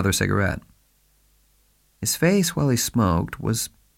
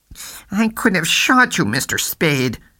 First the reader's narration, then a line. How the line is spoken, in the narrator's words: Cairo said through his teeth, painfully